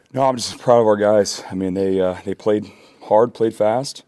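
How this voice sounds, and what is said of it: Out of breath. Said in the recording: “I'm out of breath. ... You want a second to catch your breath?”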